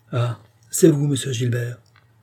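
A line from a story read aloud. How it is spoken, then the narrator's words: Plain. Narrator (French): demanda André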